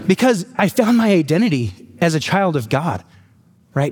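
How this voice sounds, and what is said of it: Emotional, moved voice. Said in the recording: “getting emotional”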